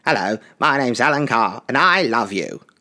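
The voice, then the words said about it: Imitates another person's voice. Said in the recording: “I'll do an Alan Carr impression”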